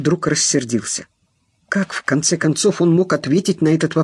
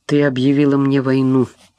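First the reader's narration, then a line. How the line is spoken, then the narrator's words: Gloomy. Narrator (Russian): выговорил мрачно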